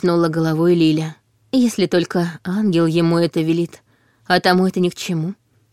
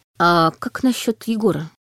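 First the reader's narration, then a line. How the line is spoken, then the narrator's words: Hesitant question. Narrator (Russian): неуверенно спросил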